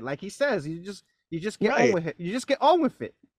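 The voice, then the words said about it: Imitates another person's accent. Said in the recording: “Good, nice accent.”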